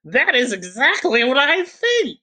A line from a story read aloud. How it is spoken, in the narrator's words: cried Miss Norris